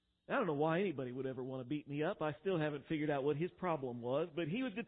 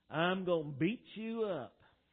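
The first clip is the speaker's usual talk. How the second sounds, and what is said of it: Texas accent. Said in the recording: “that Texas accent”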